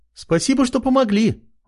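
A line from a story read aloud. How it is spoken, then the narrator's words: Exclaiming. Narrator (Russian): воскликнула она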